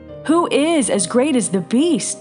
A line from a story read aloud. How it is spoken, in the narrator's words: they exclaimed